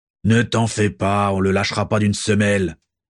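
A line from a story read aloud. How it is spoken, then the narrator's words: Sneering snicker. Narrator (French): ricana Rascus Crabbe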